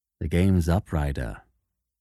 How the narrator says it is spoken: said quietly

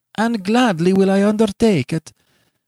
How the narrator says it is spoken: cried again the rich tones of the young lady

